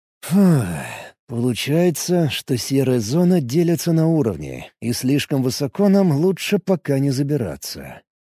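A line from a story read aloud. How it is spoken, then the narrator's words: Drawled. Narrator (Russian): протянул Алекс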